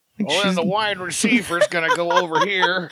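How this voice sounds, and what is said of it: Imitates a sports commentator's voice. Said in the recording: “do a good Madden impersonation”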